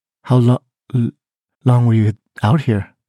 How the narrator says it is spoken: stammered

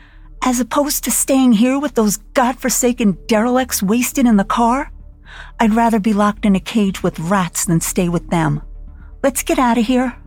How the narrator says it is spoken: Aggravated that she even had to make a decision, she snapped

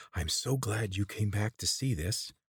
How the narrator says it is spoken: She whispered in his ear

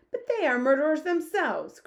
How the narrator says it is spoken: cried the head of the army

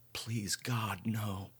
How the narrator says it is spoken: Marla whispered

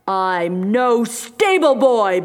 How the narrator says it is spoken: bellowed Monkey

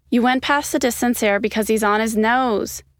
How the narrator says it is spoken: Ryan called out

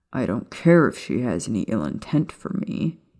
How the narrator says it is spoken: he said with a growl

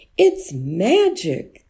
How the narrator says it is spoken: the villagers cried out, seeing how much soup he had made

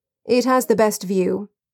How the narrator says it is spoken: Alfred said, in a disinterested tone

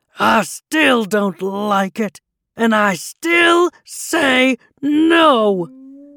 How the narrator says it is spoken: the troll shouted

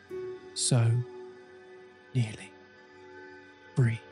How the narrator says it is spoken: the subject let out one last sigh with the words

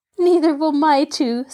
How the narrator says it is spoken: said Marjorie, giggling

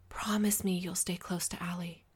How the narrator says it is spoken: whispered, my words quiet and urgent

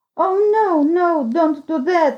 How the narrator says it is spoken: I cried

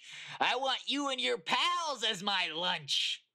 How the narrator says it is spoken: she yelled as she pounced onto them

